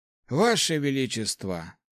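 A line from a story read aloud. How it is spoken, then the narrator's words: Sigh. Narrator (Russian): вздохнул Хорд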